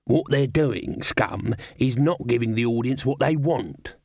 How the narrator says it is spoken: said Dibbler

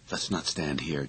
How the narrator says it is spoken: Jennings said grimly

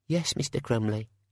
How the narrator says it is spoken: said the cashier meekly

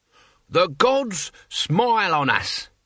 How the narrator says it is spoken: he bellowed

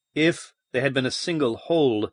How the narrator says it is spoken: Baines murmured

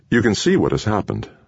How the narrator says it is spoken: Kramer said calmly

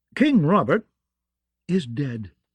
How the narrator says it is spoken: she said sharply

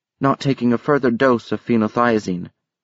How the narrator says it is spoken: Miss Lee said evenly

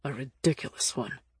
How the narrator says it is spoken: he muttered

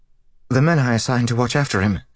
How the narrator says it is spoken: she said quickly

